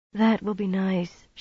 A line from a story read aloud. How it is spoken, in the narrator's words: she murmured, meaning more than the promised massage